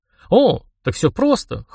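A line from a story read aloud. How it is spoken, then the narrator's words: Smirking snort. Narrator (Russian): хмыкнул я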